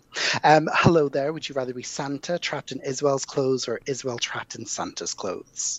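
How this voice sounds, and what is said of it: Soft Irish accent, London-influenced. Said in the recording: “this is Irish by way of London for 11 years... this is a slightly softer accent”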